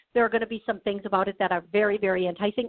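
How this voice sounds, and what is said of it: Very fast speech. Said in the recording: “they're channeling so fast through me. I can't believe I'm talking so fast.”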